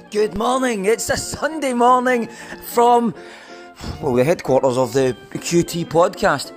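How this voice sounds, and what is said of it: Sore, rough-sounding voice. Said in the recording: “You can actually hear in my voice... it's as if I've got a sore voice”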